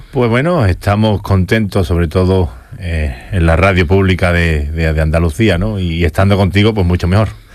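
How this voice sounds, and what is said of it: Deep, resonant radio-announcer voice. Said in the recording (Spanish): “Vaya pedazo de voz de locutor de radio que tiene”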